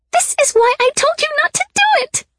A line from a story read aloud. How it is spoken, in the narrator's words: Sybil screamed in my ear